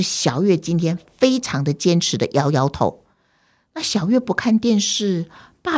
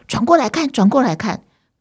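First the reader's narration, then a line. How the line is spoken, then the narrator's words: Calling, father. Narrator (Chinese): 爸爸还是一样叫他说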